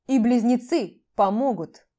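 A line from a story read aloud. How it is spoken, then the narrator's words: Cold dragon remark. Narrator (Russian): Все так же холодно прокомментировал дракон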